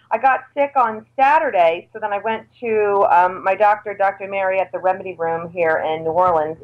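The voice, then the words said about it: Scratchy, sick-sounding voice. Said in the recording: “I've been sick. My voice is still kind of really scratchy and screwed up.”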